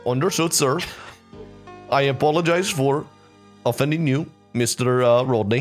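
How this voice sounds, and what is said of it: Put-on accent. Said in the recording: “I'm focusing so hard to keep that accent.”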